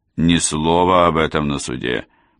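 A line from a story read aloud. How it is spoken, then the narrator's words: Grumbling. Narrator (Russian): буркнула Келли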